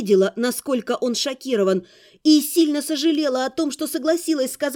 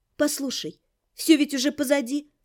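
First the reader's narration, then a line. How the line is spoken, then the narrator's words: Soft gentle speech. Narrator (Russian): мягко сказала я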